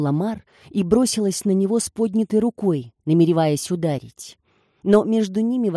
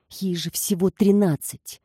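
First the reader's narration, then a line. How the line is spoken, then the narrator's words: Muttered. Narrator (Russian): пробормотала она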